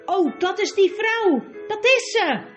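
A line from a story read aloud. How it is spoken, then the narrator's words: Fat man calling out. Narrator (Dutch): riep de dikke man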